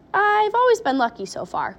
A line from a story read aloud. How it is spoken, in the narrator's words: said Mr